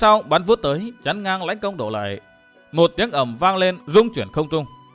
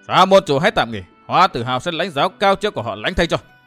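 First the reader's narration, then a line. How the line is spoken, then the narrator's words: Loud shout. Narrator (Vietnamese): một người thét lớn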